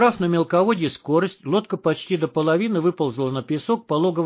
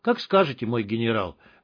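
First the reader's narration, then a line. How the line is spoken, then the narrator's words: Sad reply. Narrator (Russian): печально отозвался хомяк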